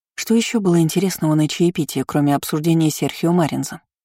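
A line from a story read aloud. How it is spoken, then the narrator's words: Rapid speech. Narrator (Russian): быстро заговорила Кейра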